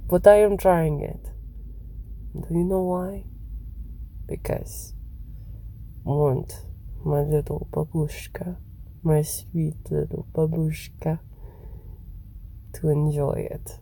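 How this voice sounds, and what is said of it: Unconvincing put-on foreign accent. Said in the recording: “I can never do this accent. It never sounds right. Sounds so fucking stupid.”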